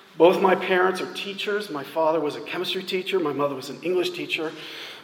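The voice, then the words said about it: New Jersey accent. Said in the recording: “You can tell from my accent that I did not grow up in South Carolina. I grew up in central New Jersey”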